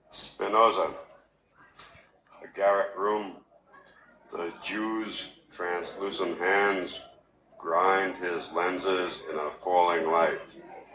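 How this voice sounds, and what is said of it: Queens accent with some Bloomsbury. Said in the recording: “you will hear a distinct Queens accent, a little bit of Queens and Bloomsbury”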